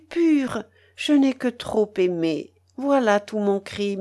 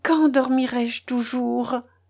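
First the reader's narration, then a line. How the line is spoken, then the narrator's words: Sleepy murmur. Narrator (French): murmura encore Mélanie en s'éveillant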